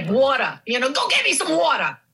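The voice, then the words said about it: Heavy New York accent. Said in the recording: “I had a very heavy New York accent ... Queens, of all places”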